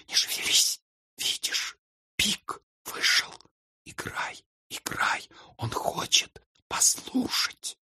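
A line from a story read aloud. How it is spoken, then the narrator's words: Whisper. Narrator (Russian): прошептала ему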